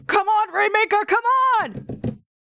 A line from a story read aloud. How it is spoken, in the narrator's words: he's like pounding the mat and screaming